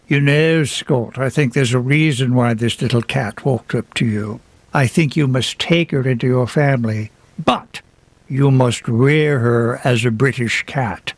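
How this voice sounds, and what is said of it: Put-on British accent. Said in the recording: “forgive the accent”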